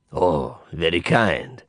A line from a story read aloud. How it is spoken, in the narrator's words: he murmured, purring with pleasure